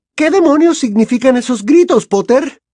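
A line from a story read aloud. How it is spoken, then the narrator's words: Snapped. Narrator (Spanish): le espetó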